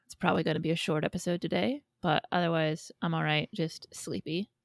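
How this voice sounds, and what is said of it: Raspy, congested sick voice. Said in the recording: “I'm a little bit sick. I've got a bunch of chest congestion and a cough, so if I sound kind of raspy”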